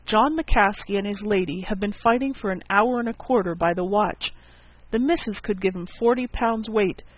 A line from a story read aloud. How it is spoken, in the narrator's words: he exclaimed